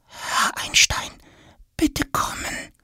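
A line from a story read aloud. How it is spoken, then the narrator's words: Whisper, then louder. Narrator (German): flüstert Tom und dann gleich nochmal etwas lauter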